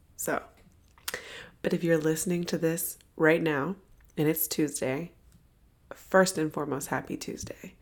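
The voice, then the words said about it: Hoarse, nearly lost voice. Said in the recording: “I apologize for my voice. You guys are going to get my sexy voice today ... I'm under the weather ... I lost my voice.”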